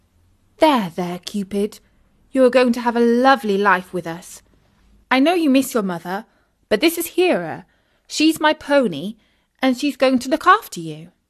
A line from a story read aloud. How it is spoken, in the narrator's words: Isis said soothingly